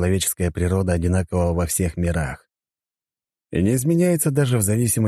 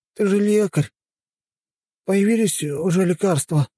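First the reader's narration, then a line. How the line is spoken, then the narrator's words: Moaning. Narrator (Russian): простонал он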